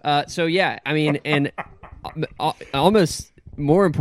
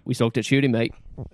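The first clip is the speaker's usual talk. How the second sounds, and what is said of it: Put-on New Zealand accent. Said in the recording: “what's your Kiwi accent?”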